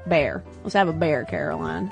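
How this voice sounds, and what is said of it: Put-on American Southern accent. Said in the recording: “Bear as beer just sounds really Southern.”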